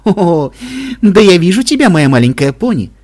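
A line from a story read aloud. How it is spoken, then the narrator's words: Laughing. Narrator (Russian): Смеялась Аликорн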